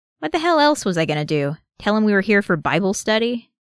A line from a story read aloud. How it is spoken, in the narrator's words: Bucky sighs